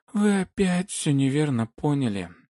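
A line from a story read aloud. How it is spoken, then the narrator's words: Tired yawning. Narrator (Russian): устало зевнула Вилайлай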